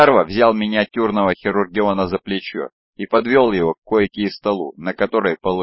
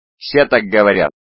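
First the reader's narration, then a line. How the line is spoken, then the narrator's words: Snapping retort. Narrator (Russian): огрызнулся Антиох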